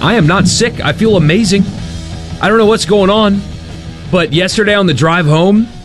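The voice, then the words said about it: Hoarse, fading voice. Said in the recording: “I'm losing my voice for some reason”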